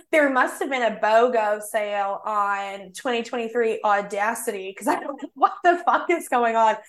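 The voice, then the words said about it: Put-on Southern American accent. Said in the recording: “I did talk in a Southern accent. So when I'm doing a Southern accent right now, this is actually accurate.”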